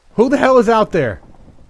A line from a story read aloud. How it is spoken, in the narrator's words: Darren's voice called out